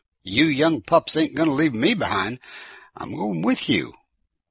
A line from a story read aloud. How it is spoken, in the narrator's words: Orville chimed in and exclaimed